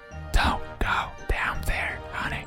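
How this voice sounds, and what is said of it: Whispered line. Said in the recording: “you hear a whisper from the closet saying”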